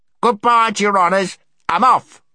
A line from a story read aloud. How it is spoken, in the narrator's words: shouted Golg